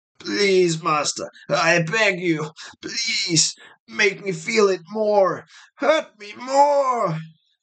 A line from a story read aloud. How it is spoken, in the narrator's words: shouted, his body writhing and shuddering